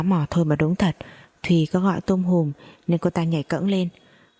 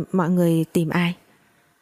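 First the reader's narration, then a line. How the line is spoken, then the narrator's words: Pale stammering. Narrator (Vietnamese): Cô ta tái mặt lại mồm ấp úng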